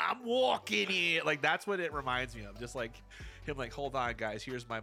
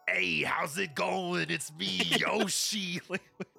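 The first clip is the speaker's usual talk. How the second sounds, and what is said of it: Cartoonish Yoshi character voice. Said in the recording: “my Yoshi impression”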